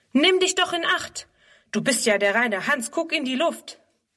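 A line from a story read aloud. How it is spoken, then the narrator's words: Calling out. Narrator (German): ruft er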